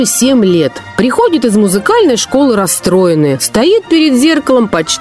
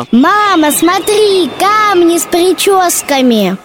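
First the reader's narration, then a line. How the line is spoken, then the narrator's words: Joyful shout. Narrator (Russian): Катя, увидев эту красоту, радостно закричала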